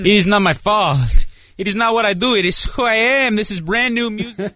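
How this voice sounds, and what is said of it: Put-on unidentified accent. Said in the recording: “What accent is that? ... Is it one you do around the house a lot ... you just take on, different characters”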